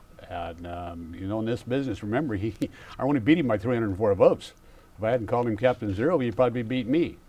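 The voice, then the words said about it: Speaks with a noticeable regional accent. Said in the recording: “I do understand your accent.”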